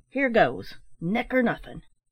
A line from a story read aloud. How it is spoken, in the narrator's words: he cried with a reckless air